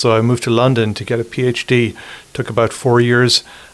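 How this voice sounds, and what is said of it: Irish accent. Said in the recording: “You have the most beautiful accent. ... I'm from Ireland originally.”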